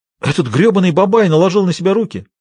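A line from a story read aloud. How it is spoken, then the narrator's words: Exclaimed. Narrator (Russian): воскликнул Большой Джим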